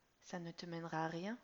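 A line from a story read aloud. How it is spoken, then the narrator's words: Gentle reproach. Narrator (French): reproche doucement Laure à son fils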